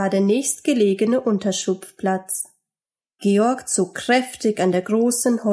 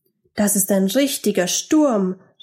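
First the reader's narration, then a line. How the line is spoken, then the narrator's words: Called out. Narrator (German): rief Georg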